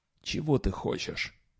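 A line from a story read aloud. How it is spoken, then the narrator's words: Whispered. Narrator (Russian): прошептал он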